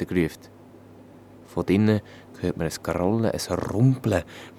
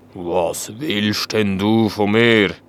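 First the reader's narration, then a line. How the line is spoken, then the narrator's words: Deep-voiced dragon asking. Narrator (German): hat der Drache mit einer tiefen Stimme gefragt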